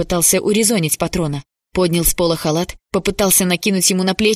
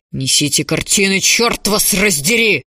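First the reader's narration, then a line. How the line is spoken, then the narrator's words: Yelling in strange voice. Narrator (Russian): заорал фон Клевер не своим голосом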